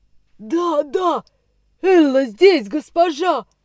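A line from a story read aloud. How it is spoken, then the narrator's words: Thundered. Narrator (Russian): прогремела негритянка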